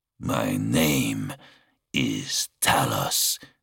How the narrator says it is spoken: growled

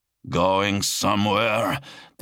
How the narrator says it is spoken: the Astartes growled through his vox speakers

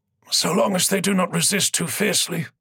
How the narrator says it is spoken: Gukul muttered

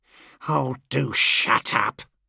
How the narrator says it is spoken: Land sneered

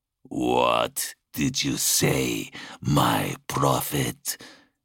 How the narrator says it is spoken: the Exalted asked, purring the way a contented lion might

